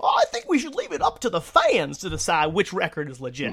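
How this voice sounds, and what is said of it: Imitates another person's voice, wrong accent. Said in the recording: “that's not his that's not his accent”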